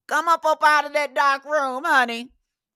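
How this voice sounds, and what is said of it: Imitates another person's voice. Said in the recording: “Like Jennifer Lewis would say ... that's my best impression.”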